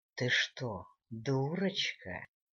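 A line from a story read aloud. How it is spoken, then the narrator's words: Deceptively gentle commander. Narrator (Russian): Обманчиво-ласково спросил командир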